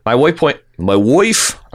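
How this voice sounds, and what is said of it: Put-on Baltimore accent. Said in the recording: “I'm trying my Balmer accent here.”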